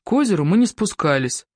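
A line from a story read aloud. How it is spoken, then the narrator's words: Sigh. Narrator (Russian): вздохнул Сева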